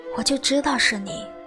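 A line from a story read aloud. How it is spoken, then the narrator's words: Hoarse. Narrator (Chinese): 他沙哑着嗓子说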